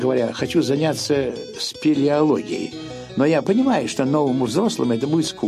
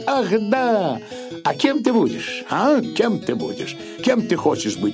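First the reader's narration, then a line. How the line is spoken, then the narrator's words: Happy smiling question. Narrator (Russian): радостно улыбаясь, спросит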